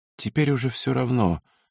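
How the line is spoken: Calm. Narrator (Russian): спокойно отозвалась она

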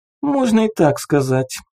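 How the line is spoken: Giggling. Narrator (Russian): Рина хихикнула

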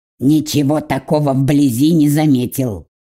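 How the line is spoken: Snorting. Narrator (Russian): хмыкнул Фабиан

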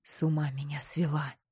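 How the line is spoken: Whispering. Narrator (Russian): словно не слыша мольбы ее шептал Горын

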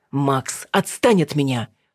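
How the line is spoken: Barked. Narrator (Russian): рявкнула Алина

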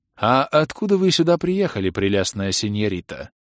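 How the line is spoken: Velvety inquiry. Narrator (Russian): Бархатным голосом поинтересовался баронет

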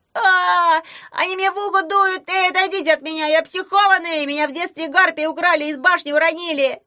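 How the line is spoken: Wailing. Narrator (Russian): вопил Ягун

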